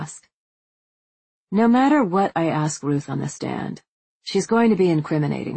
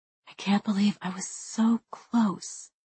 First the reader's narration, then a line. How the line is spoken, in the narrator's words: I say softly